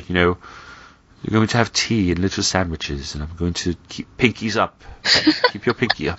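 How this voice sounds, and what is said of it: Poorly done posh put-on accent. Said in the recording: “It's a terrible accent.”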